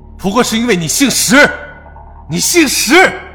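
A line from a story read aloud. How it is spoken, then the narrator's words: Hoarse desperate shout. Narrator (Chinese): 一人声嘶力竭喊道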